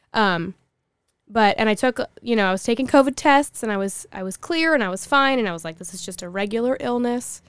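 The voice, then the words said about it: Hoarse, not-quite-normal voice. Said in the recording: “I lost my voice, ... I still sound a little bit crazy, but not definitely not where I was”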